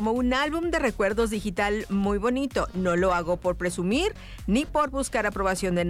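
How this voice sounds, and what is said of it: Usual voice. Nothing is said of it.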